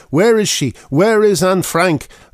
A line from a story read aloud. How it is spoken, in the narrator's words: an audience member shouted